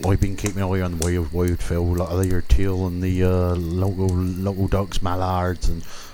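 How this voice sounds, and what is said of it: Regional English rural accent. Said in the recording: “you'll love his accent. He's from a nice part of the country. All the women love his accent ... I'm from Dorset”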